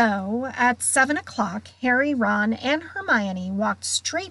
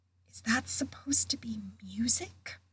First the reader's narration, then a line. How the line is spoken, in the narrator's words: Ron whispered